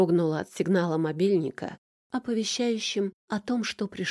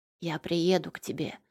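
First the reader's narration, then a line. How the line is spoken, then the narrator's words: Whispered. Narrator (Russian): прошептал он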